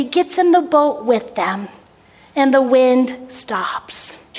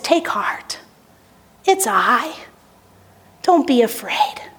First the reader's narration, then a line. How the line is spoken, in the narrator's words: Jesus, seeing their fear, tenderly says